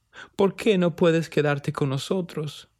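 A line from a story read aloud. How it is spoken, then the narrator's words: Tearful, crying. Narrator (Spanish): preguntó entre lágrimas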